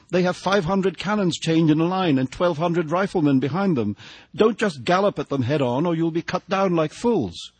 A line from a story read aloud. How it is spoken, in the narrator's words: she cried